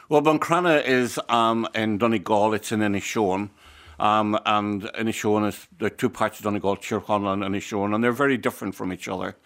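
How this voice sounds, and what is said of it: Speaker's own regional accent. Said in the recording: “I love your accent.”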